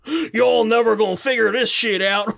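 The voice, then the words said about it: Put-on Southern accent. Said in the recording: “In a southern accent? ... Yeah.”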